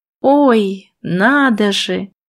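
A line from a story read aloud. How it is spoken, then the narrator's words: Caustic drawl. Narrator (Russian): едко протянула я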